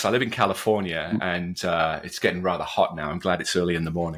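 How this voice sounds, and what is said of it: Muddy Welsh-American accent. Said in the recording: “the accent. Well, it's a little muddy. ... born and bred in Wales”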